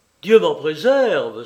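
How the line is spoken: Exclaiming. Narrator (French): s'écria Kassem

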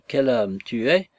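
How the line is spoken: Slow. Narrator (French): dit lentement Fimouchka

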